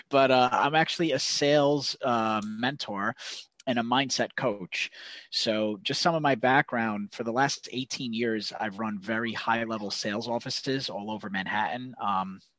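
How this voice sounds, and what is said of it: New York accent. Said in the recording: “I'm from New York. You can probably tell from my accent”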